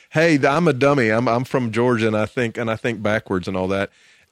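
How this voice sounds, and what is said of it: Exaggerated dumb Southern US accent. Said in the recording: “if you want to do a dumb accent in the United States, you talk like this ... southern accent”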